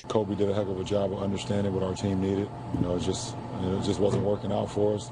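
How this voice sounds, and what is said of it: Hoarse, worn-out voice. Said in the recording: “has blown out his voice ... This is the third game in a row my voice is gone”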